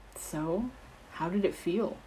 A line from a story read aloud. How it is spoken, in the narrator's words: Peter asked in an unusually thoughtful tone